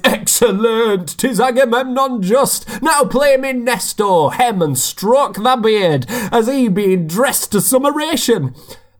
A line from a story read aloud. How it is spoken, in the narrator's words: the large Achilles, on his pressed bed lolling, from his deep chest laughs out a loud applause, cries